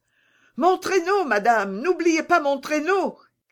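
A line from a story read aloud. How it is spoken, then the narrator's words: Child shouting. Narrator (French): cria le petit Peter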